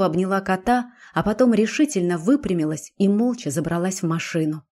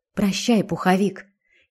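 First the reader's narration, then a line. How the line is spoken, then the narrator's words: Quiet. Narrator (Russian): тихо сказала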